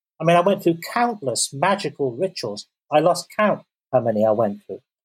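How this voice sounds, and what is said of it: English accent, pleasant voice. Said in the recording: “You have a nice English accent, a nice voice.”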